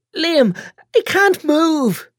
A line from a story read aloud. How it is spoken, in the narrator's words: sobs